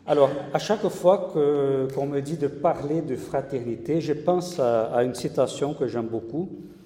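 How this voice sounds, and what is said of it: Brazilian accent speaking French. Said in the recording (French): “mon accent me dénonce, moi je suis brésilien”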